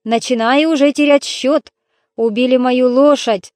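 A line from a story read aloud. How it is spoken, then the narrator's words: Grumbling giant. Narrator (Russian): проворчал великан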